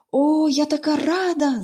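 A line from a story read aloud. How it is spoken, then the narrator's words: Delighted exclamation. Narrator (Ukrainian): захоплено вигукнула Поліанна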